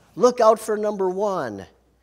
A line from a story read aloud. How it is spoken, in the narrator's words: Self cries out